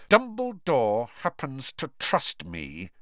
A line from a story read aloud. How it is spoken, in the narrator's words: said Snape through clenched teeth